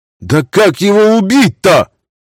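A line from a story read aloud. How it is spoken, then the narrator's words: Shout from crowd. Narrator (Russian): выкрикнул кто-то из них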